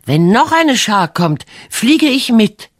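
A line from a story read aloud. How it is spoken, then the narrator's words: Calling out. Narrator (German): rief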